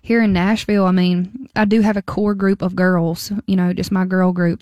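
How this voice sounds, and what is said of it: Strong Southern American accent. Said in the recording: “that strong Southern accent”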